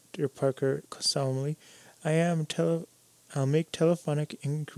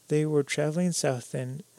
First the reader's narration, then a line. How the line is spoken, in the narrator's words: Wren said